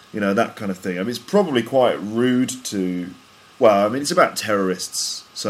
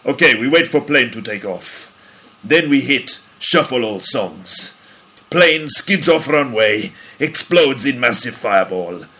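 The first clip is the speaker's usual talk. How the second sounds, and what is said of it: Put-on vague foreign character accent. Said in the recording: “I do my kind of terrorist voice ... I don't know what kind of accent that is. It's just a sort of average terrorist's kind of voice.”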